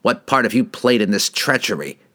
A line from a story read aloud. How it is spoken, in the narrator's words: spat at his bitter rival